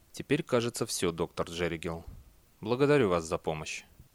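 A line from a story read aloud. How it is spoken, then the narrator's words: Quiet voice. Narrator (Russian): Бейли тихим голосом сказал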